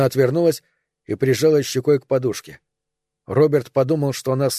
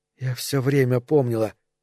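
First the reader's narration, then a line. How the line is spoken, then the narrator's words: Whisper. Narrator (Russian): прошептала она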